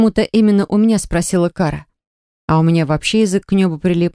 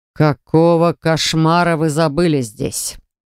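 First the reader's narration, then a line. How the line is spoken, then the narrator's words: Sudden growl from behind. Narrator (Russian): Вдруг прорычал кто-то за нашей спиной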